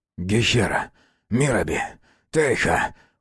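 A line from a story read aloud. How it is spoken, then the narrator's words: Father's halting whisper. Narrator (Russian): прерывисто зашептал отец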